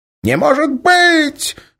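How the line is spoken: Exclaiming. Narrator (Russian): воскликнул Эрвин

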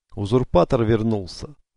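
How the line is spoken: Growl. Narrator (Russian): прорычал второй офицер

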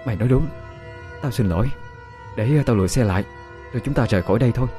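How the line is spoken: Sighing reply. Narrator (Vietnamese): Dung nhắm mắt thở dài một hơi rồi trả lời

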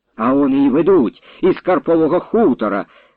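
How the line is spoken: Cried out. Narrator (Ukrainian): скрикнула Пупиха

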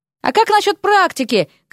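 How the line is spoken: Shouted after someone. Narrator (Russian): крикнул ему вслед Дерек

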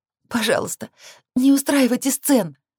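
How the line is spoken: Pleading. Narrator (Russian): взмолилась

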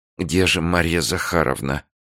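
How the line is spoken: Angry muttering secretary. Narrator (Russian): себе под нос пробормотала секретарша, почему-то сильно рассерженная

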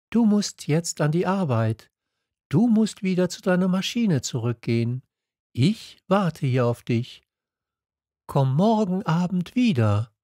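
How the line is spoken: Calm. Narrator (German): antwortete ruhig

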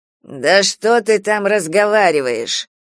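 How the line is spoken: Through gritted teeth. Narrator (Russian): процедил бритоголовый тип

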